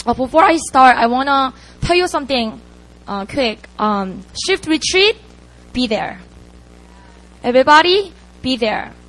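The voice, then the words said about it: Hoarse, fading voice. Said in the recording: “I'm losing my voice too.”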